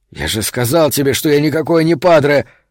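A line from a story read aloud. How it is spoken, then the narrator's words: Snapping retort. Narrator (Russian): огрызнулся Сильвера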